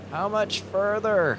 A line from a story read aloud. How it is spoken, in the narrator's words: He yelled